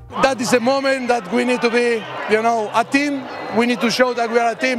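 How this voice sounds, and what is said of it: English with a Spanish accent. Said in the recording (Danish): “krydret med den skønneste spanske accent”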